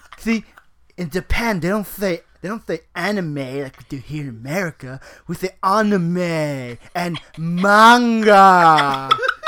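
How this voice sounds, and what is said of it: Put-on anime fan character voice. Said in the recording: “trying to make a voice ... his weeaboo impression”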